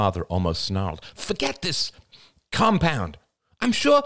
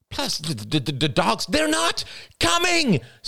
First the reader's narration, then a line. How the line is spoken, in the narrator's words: screamed Rachel